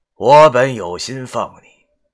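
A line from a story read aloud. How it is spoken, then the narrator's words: Regretful sigh. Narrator (Chinese): 黄巢见死掉的法明，便感叹道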